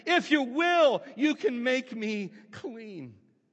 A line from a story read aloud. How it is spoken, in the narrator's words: begging him, imploring him, pleading with him, and kneeling before, said to him